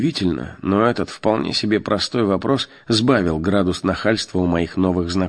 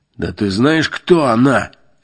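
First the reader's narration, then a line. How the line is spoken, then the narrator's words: Barking thug. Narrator (Russian): рявкнул бычара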